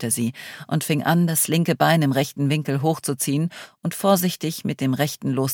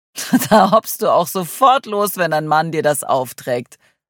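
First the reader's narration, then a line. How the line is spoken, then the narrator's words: Laughing. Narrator (German): lachte Adrian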